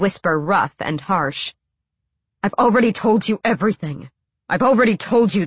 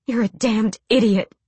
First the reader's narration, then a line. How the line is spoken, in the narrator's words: she breathed